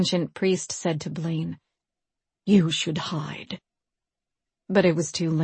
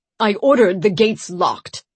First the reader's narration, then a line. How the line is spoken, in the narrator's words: Per Santiger bellowed